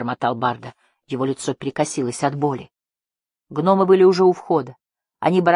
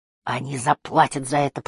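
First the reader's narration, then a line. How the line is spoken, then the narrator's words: Growling. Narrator (Russian): прорычал он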